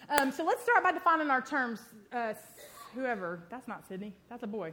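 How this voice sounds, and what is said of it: Unusual accent, fast speech. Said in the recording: “I've got a really weird accent. I talk too quick.”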